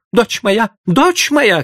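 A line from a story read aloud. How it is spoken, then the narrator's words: Frightened mother shouting. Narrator (Russian): кричала испуганная мать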